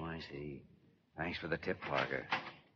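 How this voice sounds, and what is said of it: Whispering. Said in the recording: “What's all the whispering for?”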